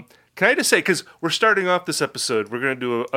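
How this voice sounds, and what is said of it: Usual voice. Nothing is said of it.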